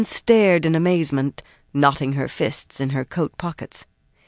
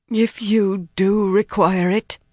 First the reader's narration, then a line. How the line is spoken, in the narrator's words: Arian managed shakily